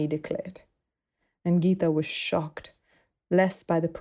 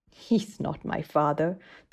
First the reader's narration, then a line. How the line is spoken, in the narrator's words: the girl replied scornfully